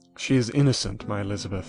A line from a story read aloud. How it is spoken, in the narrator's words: said I